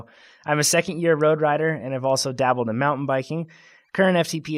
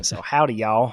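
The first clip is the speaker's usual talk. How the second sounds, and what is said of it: Attempted Southern US accent. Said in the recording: “she requests that I say this in a Southern accent ... I hope that's a Southern accent.”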